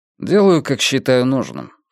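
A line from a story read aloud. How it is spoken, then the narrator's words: Calm reply. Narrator (Russian): спокойно ответил Йона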